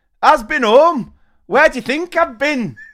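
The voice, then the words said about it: Thick Yorkshire accent. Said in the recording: “In a thick Yorkshire accent”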